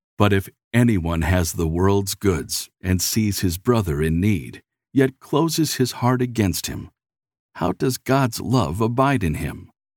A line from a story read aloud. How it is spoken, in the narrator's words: said calmly